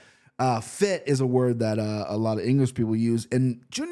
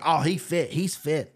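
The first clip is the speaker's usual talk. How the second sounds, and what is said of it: Poor attempt at English accent. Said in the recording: “I can't do an English accent... I butchered that”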